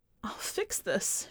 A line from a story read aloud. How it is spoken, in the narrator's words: she sobbed